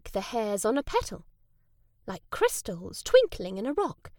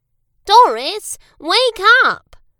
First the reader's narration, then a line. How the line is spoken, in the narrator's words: cried Boris